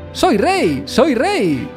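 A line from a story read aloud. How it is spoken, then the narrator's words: Joyful exclaiming. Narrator (Spanish): exclamaba con alegría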